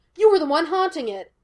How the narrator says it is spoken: Gus snapped

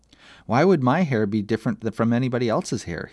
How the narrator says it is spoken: said

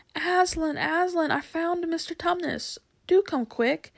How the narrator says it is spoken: But the best of all was when Lucy came rushing upstairs, shouting out

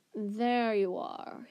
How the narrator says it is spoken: he drawled

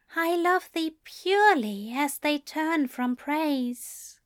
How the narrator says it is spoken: murmured Aziraphale

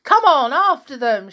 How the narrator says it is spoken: shouted Tom

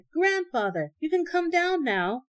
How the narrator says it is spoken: shouted

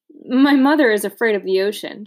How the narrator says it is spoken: said, laughing

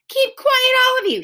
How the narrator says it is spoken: shouted Beezus

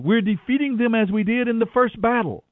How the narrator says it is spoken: the warriors of Benjamin shouted

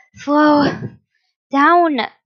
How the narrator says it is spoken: Sinso panted heavily as he tried to catch his breath from running so much

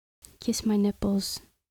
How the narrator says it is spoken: Camilla demanded in a whisper

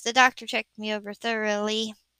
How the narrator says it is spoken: she said wearily

